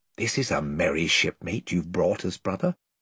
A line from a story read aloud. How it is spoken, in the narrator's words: whispered Caspian to Edmund with a chuckle